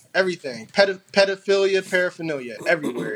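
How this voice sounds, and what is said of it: Imitates another person's voice. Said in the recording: “in a Soulja Boy voice”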